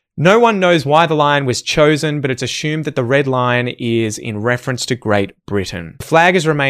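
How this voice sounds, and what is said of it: Usual voice. Nothing is said of it.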